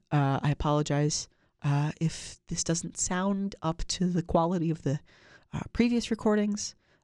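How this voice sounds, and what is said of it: Nasal, congested voice. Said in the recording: “I am recovering from a very nasty cold. So if my voice sounds a little bit more nasal than usual”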